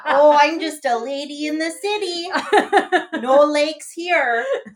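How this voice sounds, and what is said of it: Exaggerated Minnesotan accent. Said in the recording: “I don't have a Minnesotan accent ... It's not as strong as that ... until you emphasize it”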